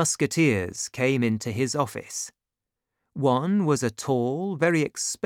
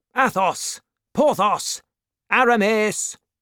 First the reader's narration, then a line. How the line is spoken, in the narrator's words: Then he called out loudly